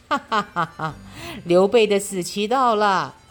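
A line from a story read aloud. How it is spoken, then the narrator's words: Loud laughter. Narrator (Chinese): 魏国皇帝知道后，大笑说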